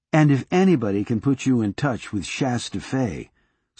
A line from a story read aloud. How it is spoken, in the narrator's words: Sortilege said